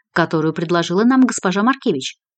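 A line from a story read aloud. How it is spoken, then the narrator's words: Sharp-voiced announcement. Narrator (Russian): резким голосом сообщила Мильви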